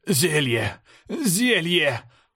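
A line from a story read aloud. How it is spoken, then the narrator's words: Hoarse wheeze. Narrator (Russian): прохрипел я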